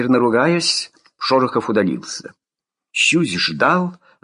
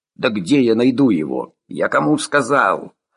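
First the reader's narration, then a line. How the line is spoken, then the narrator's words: Grumbling. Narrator (Russian): Деляга, угревшийся у телефона, заворчал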